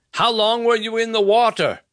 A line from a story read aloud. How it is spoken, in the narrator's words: Nevin yelled